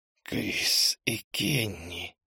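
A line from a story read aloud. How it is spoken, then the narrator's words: Hissed. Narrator (Russian): прошипела она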